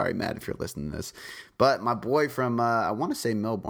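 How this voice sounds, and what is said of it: Usual voice. Nothing is said of it.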